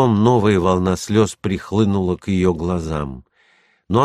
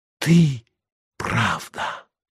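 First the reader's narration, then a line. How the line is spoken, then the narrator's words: Whisper. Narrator (Russian): снова прошептала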